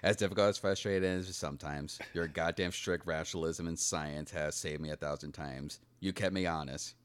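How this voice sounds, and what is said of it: Imitates another person's voice. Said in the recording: “a Gary Shandling impression ... you know who he sounded like for a second? ... Morgan Freeman in Shawshank Redemption”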